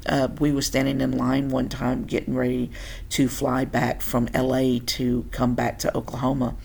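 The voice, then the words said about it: Tennessee Southern accent. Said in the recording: “I'm from Tennessee, born and bred ... that's hence the accent that I can't hear ... Everybody says I have one”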